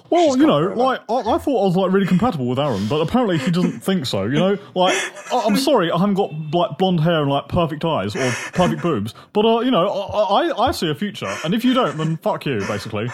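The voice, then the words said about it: Impression of Sharon. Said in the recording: “give us an impression of Sharon ... your favourite impression”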